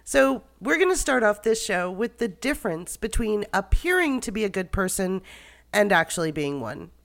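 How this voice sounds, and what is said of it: Hoarse, raspy voice from a cold. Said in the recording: “Please excuse my voice. ... I've caught a cold that makes me sound like I've smoked a carton of cigarettes”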